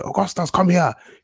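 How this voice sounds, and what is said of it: Put-on Nigerian accent. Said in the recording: “in a Nigerian accent”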